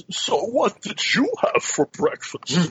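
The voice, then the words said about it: Impression of Bane's voice. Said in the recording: “The only thing, the only line I can do in his voice... so the only Bane line I can do is”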